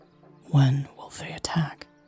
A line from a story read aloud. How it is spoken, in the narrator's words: She whispered